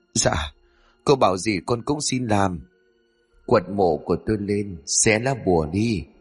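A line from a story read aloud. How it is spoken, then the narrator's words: Trembling voice. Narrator (Vietnamese): Hắn lúc này run rẩy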